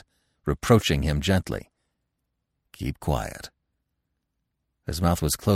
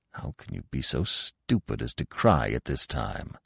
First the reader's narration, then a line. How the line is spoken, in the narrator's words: he grumbled gently